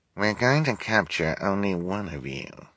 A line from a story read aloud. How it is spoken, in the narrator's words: she said, in a quiet voice so the audience wouldn't hear her